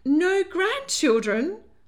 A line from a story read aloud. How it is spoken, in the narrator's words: wailed Lady Hartwood